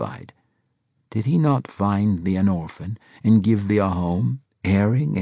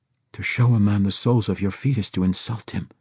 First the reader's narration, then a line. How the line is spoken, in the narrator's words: Yusef whispered